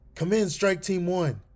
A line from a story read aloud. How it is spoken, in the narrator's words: Alex called out one more time in a declaration of hope